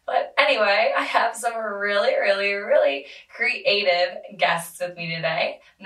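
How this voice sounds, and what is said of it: Strained voice, nearly lost. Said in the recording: “I lost my voice. So, I will be speaking like this for the remainder of the podcast. ... I hate my voice so much.”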